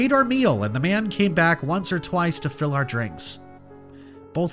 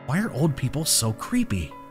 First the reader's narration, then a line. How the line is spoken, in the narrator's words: I whispered